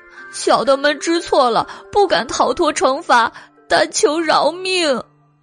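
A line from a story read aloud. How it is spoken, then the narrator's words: Wailing, begging. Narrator (Chinese): 黑花狸猫和黄花狸猫哭天抢地的求饶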